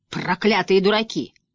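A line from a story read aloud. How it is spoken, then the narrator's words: Dragon's growl. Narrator (Russian): прорычал дракон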